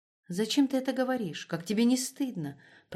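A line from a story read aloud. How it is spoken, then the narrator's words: Whisper. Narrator (Russian): прошептала она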